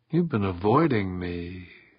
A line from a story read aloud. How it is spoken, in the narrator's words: she said softly